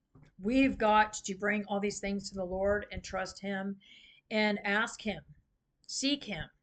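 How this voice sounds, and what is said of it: Strained, fading voice. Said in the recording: “I'm losing my voice ... my voice is really going out.”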